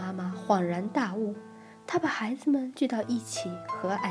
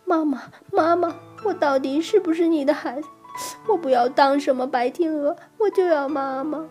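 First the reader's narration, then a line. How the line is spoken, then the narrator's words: Crying and shouting. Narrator (Chinese): 边哭边喊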